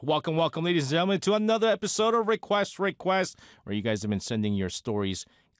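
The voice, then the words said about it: Slightly weakened, not fully recovered voice. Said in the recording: “you can hear from my voice, ... it's just not gone to the 100% yet. And that little, like, 3% of my voice not being there”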